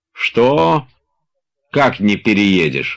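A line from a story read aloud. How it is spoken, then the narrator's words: Menacing objection. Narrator (Russian): грозно возразил Тарантьев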